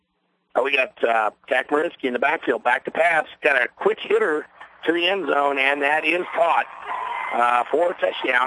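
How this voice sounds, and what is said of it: Hoarse, strained voice. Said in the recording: “I'm losing my voice, but it's been a long night.”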